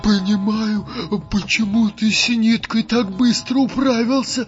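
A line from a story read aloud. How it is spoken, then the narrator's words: Quick squeak. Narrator (Russian): успел пискнуть Вахмурка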